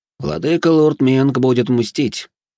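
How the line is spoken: Calm. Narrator (Russian): спокойно заметил Нарс Гори

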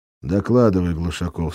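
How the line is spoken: Plain. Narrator (Russian): сказал Лис

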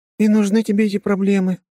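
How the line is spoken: Sighing. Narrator (Russian): вздохнула Вика

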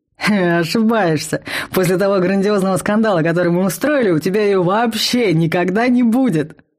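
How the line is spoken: Laughing chuckle. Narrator (Russian): хохотнул Вал

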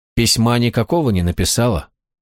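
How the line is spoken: Level, even voice. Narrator (Russian): все тем же ровным голосом спросил Гвалиор

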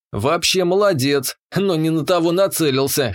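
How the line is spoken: Snorting. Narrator (Russian): хмыкнул я

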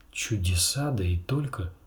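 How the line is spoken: Sighing. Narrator (Russian): вздохнул Ксара

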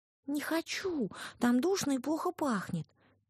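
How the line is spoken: Little girl's squeak. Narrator (Russian): пискнула девочка

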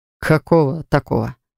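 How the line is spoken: Snorted. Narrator (Russian): хмыкнул он

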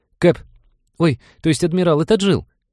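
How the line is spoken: Squeaky speaker. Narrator (Russian): пискнул динамик над входом

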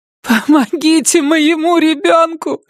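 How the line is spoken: Cried out. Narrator (Russian): вскрикнула Пэтси

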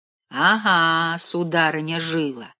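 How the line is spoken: Plain. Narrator (Russian): сказал тогда Билл

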